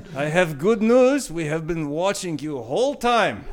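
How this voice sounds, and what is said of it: Put-on Russian accent. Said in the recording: “I work in the Russian embassy as a fixer. Because I can't do North Korean accent.”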